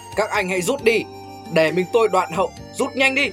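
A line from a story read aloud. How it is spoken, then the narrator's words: Shouted. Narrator (Vietnamese): Thiết Giáp Kim Cương la lên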